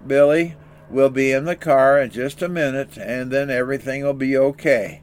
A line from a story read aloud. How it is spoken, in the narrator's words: Dad was calmly saying over and over